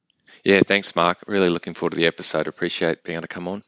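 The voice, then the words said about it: Australian accent. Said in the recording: “As you will unmistakably tell soon enough, he is joining us from Brisbane, Australia ... to hear the accent.”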